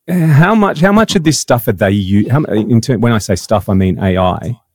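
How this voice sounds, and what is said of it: Australian accent. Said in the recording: “that's my Aussie twang.”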